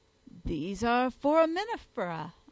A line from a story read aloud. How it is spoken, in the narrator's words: I exclaimed